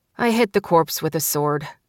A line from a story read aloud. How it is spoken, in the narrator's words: Stella said, her tone resigned